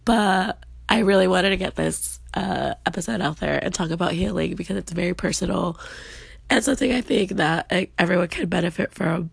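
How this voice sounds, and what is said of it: Slightly raspy voice. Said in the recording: “I am currently under the weather. That's why my voice is a little bit more raspy.”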